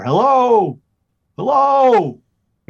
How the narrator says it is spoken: holler

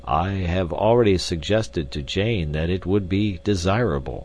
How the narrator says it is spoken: said Professor Porter, sadly

